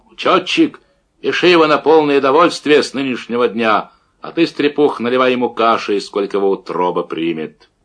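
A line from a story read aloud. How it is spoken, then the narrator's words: Deafening bass yell. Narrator (Russian): Дубцов оглушающим басом заорал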